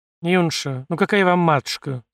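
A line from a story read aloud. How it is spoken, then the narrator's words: Tired, weary. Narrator (Russian): устало сказала настоятельница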